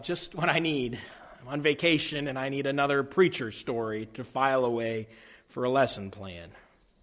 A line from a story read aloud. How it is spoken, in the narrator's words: groaned, and thought to himself